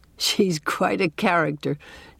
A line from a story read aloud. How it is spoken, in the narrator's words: chuckled Dr